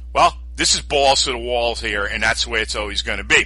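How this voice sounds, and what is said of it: New York accent. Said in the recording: “I love your New York accent.”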